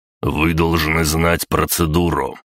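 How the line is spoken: Through gritted teeth. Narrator (Russian): процедил Виктор Викторович

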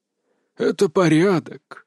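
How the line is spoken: Breathy exhale. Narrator (Russian): выдохнул Кирилл, сгорбившись

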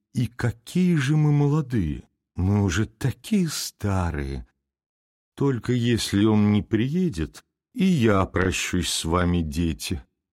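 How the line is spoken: Sad, sighing. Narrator (Russian): грустно вздохнув, сказала княгиня

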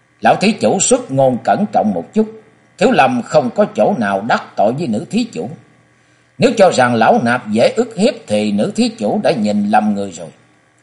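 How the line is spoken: Deep-voiced rebuke. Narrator (Vietnamese): lão trầm giọng quát

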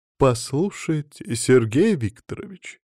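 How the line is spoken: Ingratiating, insinuating. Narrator (Russian): вкрадчиво повторила она

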